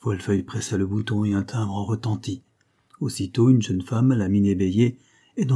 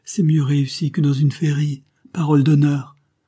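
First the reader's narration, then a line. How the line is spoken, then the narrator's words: Surprised exclamation. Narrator (French): s'écria Léonce de Folfeuille, qui marchait de surprise en étonnement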